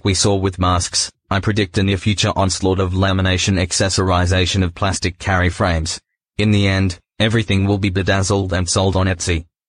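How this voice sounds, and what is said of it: Australian-accented robot voice. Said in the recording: “the Australian accent robot voice is chef's kiss”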